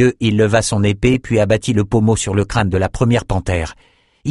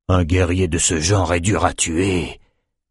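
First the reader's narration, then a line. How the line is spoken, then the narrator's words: Breathed softly. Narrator (French): souffla Nathan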